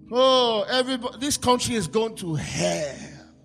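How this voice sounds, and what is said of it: Put-on Nigerian accent. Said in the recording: “I hear Nigerians talk to me ... You didn't think I could do an accent, did you?”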